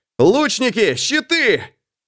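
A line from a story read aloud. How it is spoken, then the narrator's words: Alarmed shout. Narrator (Russian): Эрвин успевает заметить стрелы и закричать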